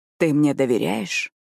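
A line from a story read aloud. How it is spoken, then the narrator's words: Intimate close whisper. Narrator (Russian): прошептал прямо в губы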